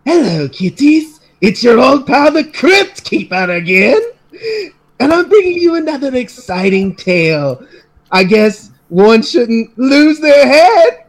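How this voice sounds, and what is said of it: Crypt Keeper character voice. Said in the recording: “do a Crypt Keeper impersonation... I can do the voice... That is the best impression we've had so far on this podcast”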